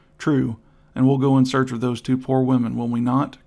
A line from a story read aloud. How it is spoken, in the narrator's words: cried the artist